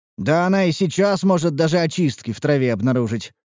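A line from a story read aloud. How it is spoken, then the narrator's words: Snort. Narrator (Russian): хмыкнул я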